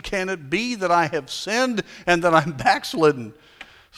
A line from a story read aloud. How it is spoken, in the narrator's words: Alarmed, he stopped his horse and exclaimed